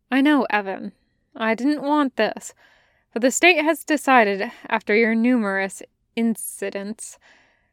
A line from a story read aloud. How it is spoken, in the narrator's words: said, sighing